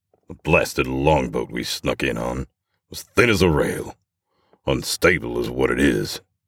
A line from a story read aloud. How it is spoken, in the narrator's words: growls the barkeep